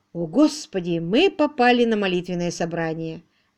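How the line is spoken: Exclaimed. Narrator (Russian): воскликнул Уимзи

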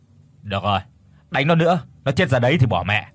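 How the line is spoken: Mildly irritated snap. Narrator (Vietnamese): Thằng Bảo gắt nhẹ

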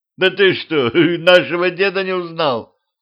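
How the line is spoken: Laughing sorcerer. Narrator (Russian): колдун рассмеялся

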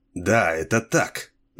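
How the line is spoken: Malicious chuckle. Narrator (Russian): злобно усмехнулся

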